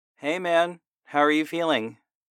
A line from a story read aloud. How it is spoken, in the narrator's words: I called out to him